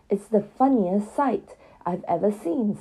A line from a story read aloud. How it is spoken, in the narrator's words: said Tom, wiping his eyes, for he had laughed till he cried